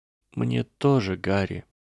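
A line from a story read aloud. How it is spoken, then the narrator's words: Whisper. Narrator (Russian): прошептала она в тишине комнаты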